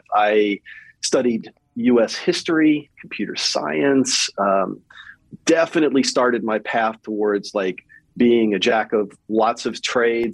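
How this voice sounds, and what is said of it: Mild Southern US accent. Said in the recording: “I probably, to you, still have a Southern accent to some degree ... yeah, I heard it.”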